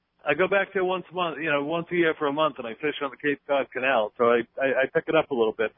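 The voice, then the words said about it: American East Coast accent. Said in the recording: “You sound like you're from the eastern seaboard, from the East Coast ... you still got the accent.”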